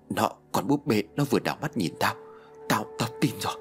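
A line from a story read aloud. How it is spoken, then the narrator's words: Trembling, terrified. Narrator (Vietnamese): Tùng run rẩy, tái mét nói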